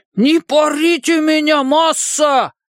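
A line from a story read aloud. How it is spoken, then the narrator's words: Shouting in imitated voice. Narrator (Russian): закричал Ричи голосом Пиканини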